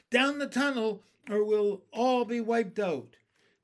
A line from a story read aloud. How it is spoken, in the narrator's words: cried James